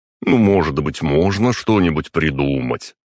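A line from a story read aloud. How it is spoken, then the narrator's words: Fake whiny question. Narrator (Russian): притворно плаксивым тоном спросил я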